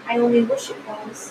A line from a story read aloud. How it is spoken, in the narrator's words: the March Hare said to itself in a whisper